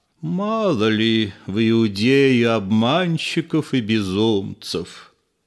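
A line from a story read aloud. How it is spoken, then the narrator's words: Lazy. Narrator (Russian): Анна лениво сказал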